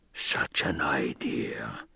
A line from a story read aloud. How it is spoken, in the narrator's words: the Baron whispered